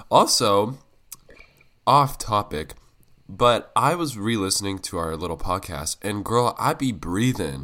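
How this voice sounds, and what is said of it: Sick-sounding voice. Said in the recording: “I'm sick, so I'm sorry if I sound sick”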